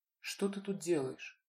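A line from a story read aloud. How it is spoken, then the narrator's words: Hurtfully casual tone. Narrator (Russian): Это было сказано до обидного будничным тоном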